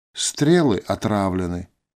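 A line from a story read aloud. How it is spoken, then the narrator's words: Calm reply. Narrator (Russian): спокойно ответил эльф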